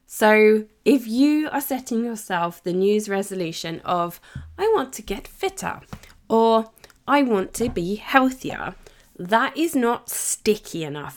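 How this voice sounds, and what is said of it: Strained, failing voice. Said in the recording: “my voice is really starting to go a bit here”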